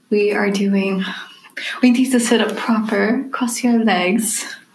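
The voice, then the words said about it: Put-on British accent. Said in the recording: “I don't know why we're talking in British accent”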